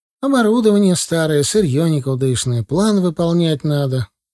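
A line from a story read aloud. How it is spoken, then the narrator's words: Tired reply. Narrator (Russian): устало ответила она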